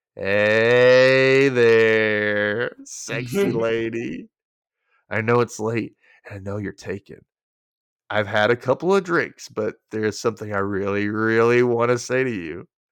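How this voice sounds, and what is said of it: Drunk-sounding imitated character voice. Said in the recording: “I'm going to try my best Will Schuster impression of him being drunk”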